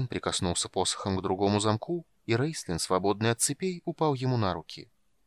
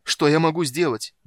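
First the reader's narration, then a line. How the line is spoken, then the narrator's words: Helpless shout. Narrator (Russian): беспомощно закричал Полин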